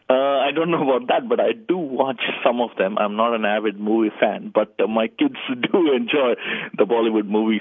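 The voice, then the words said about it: Indian English accent. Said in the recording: “I've got to ask from your accent and your name, are you from India?”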